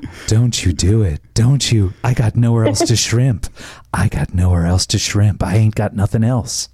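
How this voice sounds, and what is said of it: Sexy, seductive voice. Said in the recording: “Do the sexy voice again.”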